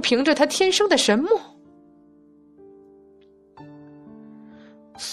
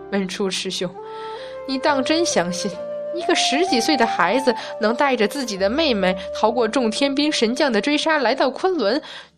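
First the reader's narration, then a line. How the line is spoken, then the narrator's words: Sudden laughter. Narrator (Chinese): 普贤真人忽然笑起来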